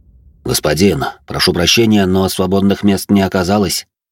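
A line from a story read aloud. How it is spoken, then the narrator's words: Dejected voice. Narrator (Russian): понурым голосом произнес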